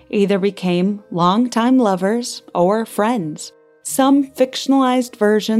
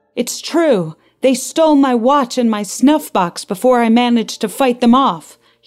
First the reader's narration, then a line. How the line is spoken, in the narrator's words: moaned